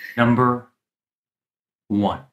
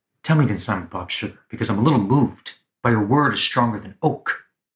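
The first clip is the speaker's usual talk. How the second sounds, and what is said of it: Tom Cruise impression, pregnant pauses. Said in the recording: “How to Do a Tom Cruise Impersonation ... he does pregnant pauses really, really well ... he articulates each and every syllable”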